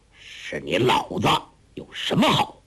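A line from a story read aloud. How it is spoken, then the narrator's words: Hoarse. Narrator (Chinese): 外边一个人沙哑了嗓子说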